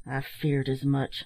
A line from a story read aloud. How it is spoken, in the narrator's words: muttered the captain